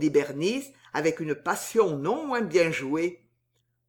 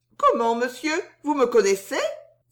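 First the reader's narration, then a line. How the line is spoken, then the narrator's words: Feigned surprised exclamation. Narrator (French): s'écria Suzon avec une surprise très bien jouée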